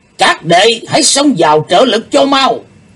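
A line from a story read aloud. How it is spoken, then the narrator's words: Sudden loud shout. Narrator (Vietnamese): Đệ nhất sứ giả bỗng lớn tiếng quát to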